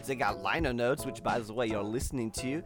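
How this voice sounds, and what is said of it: Put-on unidentified accent. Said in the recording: “I don't know what accent this is anymore”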